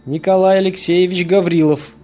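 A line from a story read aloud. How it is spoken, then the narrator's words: Loud repetition. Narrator (Russian): громко повторил мужчина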